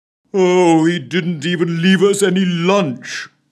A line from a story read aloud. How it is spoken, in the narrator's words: moaned the First Lord to himself